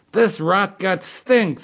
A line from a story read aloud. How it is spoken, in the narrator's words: screamed Sergei